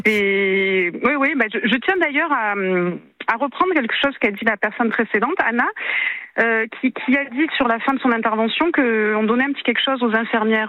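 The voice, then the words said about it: Sing-song southern French Marseille accent. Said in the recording (French): “J'entends un petit accent du Sud... accent chantant de Marseille”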